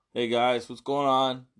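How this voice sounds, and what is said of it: Deep, hoarse sick voice. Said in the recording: “laryngitis... My tonsils are all inflamed... my voice is a little deeper, like I'm Barry White's illegitimate grandson”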